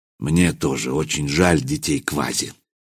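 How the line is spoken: Quiet. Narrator (Russian): сказал негромко Михаил

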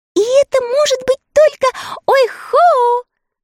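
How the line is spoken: Delighted squeal. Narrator (Russian): в восторге взвизгнула Энни

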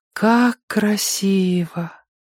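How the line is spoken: Sighing. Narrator (Russian): вздохнула Сойка

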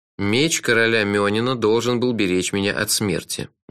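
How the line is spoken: Gloomy. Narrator (Russian): мрачно сказал я

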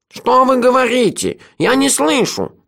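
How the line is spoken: Nasal whine. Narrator (Russian): загнусавил изамонец

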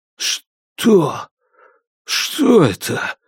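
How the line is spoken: Breathless. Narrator (Russian): выдохнул Вилгис

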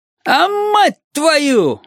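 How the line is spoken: Yelling. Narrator (Russian): вопит Лиман

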